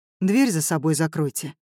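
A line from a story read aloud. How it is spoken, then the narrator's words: Dull, flat voice. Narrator (Russian): сказал Семён тусклым голосом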